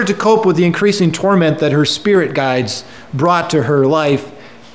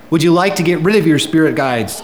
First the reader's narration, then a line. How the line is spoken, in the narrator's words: I asked